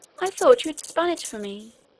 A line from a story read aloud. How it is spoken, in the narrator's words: exclaimed Irene